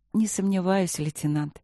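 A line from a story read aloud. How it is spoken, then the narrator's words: Soft. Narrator (Russian): мягко сказала Василина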